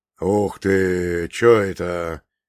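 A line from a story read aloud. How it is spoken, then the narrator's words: Amazed exclamation. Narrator (Russian): изумленно воскликнул Иван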